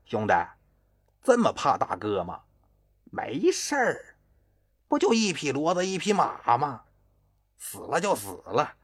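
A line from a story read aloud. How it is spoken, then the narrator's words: Cheerful, laughing. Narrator (Chinese): 金志来还是笑呵呵的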